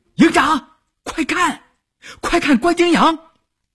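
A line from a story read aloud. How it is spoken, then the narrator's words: Messenger shouting. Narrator (Chinese): 通讯员这么一喊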